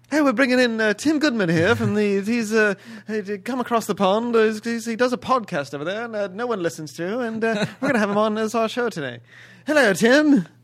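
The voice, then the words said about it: Put-on British accent. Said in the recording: “That's probably the best British accent you've done in like 3 or 4 years.”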